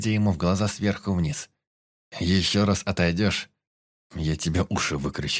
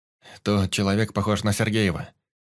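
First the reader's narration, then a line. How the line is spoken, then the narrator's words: Quick explaining. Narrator (Russian): начал быстро объяснять Юсуф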